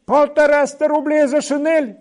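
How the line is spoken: Startled cry, usually quiet. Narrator (Russian): вскрикнул бедную Акакий Акакич, вскрикнул, может быть, в первый раз отроду бы отличался всегда тихостью голоса

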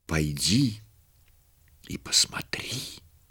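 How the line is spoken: Whispering angelic chorus. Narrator (Russian): легионы ангелов шептали ей на ух

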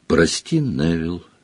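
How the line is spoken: Quiet. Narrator (Russian): негромко сказала она

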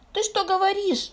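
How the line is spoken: Exclaimed. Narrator (Russian): воскликнул Финтус

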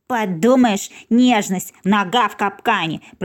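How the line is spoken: Grumbled. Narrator (Russian): проворчал Фикс

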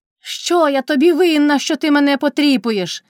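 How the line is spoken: Shouting. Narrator (Ukrainian): крикнула Кайдашиха

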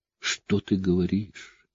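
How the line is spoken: Whisper. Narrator (Russian): прошептала она

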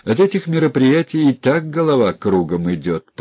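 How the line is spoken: Laughing. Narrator (Russian): посмеялся Сильченко

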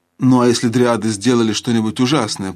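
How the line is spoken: Grumbling. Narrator (Russian): проворчал Алмаз

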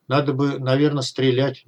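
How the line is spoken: Uncertain. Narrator (Russian): неуверенно произнес Лазарев

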